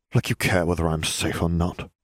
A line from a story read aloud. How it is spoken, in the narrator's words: Malfoy muttered